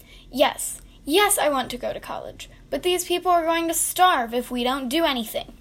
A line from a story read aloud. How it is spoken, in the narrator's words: Fred exclaimed, hostility in his words